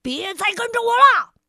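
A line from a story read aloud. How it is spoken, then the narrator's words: Angry. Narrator (Chinese): 他生气的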